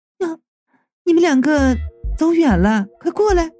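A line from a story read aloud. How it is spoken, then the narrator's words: Sudden call. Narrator (Chinese): 三娘忽然就叫道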